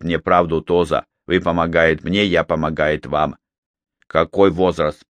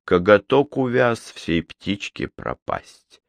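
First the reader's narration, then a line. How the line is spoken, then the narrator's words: Muttered. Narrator (Russian): пробормотал он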